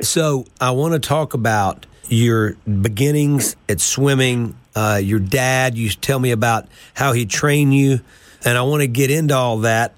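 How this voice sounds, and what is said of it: Voice slightly affected by a cold. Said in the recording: “I got a cold right now ... I can tell you got a little bit of cold”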